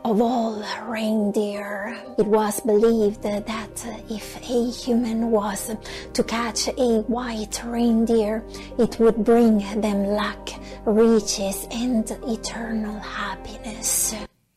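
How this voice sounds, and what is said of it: Creepy, breathy narrating voice. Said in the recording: “She's obviously suffering from asthma ... Kind of creepy voice”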